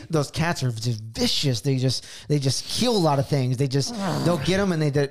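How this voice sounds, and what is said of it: Imitates another person's voice. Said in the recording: “I'll do an impression of them too ... practices these Joe Rogan rants”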